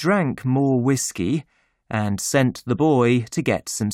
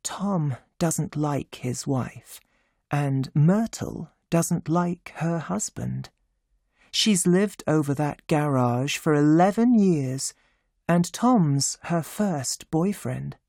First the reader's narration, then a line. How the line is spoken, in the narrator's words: Catherine said quietly